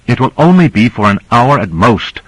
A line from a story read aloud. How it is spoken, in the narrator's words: said Cora angrily